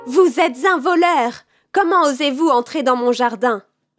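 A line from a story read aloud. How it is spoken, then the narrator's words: Woman shouting. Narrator (French): cria-t-elle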